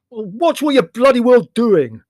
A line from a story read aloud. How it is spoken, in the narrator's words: said Leslie loudly and belligerently